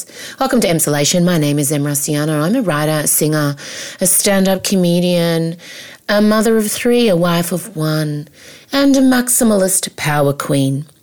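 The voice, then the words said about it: Saucy radio-presenter voice. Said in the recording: “I don't even think I ever did a proper radio voice ... my voice sounds quite saucy. Does it sound saucy?”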